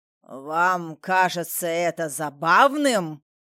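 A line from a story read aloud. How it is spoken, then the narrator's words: Offended roar. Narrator (Russian): взревел граф, безошибочно понявший, что смеются над ним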